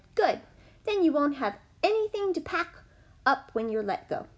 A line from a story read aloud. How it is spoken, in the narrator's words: Tilly laughed and said